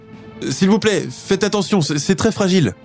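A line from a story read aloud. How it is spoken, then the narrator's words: Pleading. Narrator (French): Elle supplie les marins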